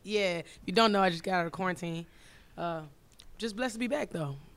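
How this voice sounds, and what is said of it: Raspy, slightly lost voice. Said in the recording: “my voice is a little raspy. ... Kind of lost it”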